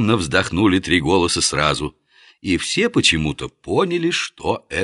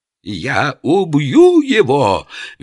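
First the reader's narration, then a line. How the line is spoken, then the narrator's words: Shrill vow. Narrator (Russian): визгливо поклялся эмир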